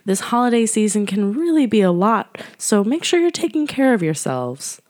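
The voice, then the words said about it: Scratchy, slightly hoarse voice. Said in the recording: “you might be able to tell from my voice that I have a bit of a scratchy throat, and I'm feeling a little under the weather”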